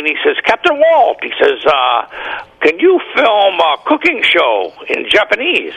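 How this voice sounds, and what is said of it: Imitated Japanese accent. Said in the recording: “That's a pretty good accent.”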